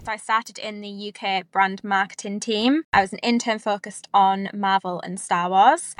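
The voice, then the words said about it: British English accent. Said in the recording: “If you can't tell by my accent, I'm from the UK.”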